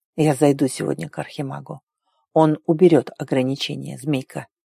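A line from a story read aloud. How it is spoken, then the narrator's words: Quiet. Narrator (Russian): сказал тихо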